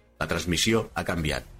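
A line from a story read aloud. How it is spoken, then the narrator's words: Plain. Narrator (Catalan): va respondre Civitas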